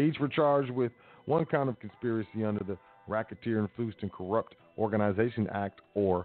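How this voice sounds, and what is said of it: Usual voice. Nothing is said of it.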